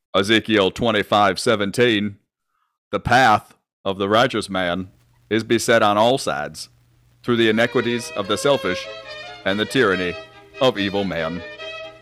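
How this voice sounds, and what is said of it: Forrest Gump character voice impression. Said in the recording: “do your Forrest Gump impression ... So this would be Forrest Gump, but he's playing Samuel Jackson's character, Jules Winfield in Pulp Fiction.”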